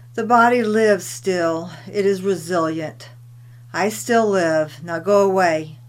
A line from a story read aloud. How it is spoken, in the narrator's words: Tilikum grumbles